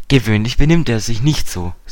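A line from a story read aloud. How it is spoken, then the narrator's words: Plain. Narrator (German): sagte Dick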